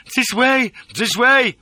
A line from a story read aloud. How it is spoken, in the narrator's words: bawls Carl Gustav